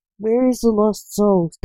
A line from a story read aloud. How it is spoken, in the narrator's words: snapped Lance, who was also a reaper